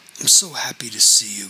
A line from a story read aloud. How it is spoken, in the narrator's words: whispered